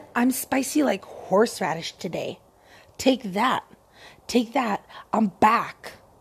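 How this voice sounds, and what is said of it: Hoarse, dry voice. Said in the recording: “my voice is so hoarse and dry”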